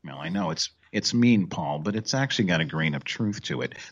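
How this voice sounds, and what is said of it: Imitates another person's voice. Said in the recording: “my Mike Krzyzewski impersonation.”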